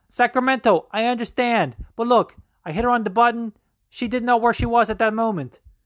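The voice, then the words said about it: Put-on Dutch accent. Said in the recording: “How good are my Dutch accents, by the way? I'm king.”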